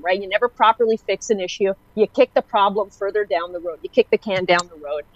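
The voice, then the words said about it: Irritated, exasperated tone. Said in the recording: “it's irritating to me at this point ... sorry if I sound like I've hit my level ... sorry if you can hear that in my voice”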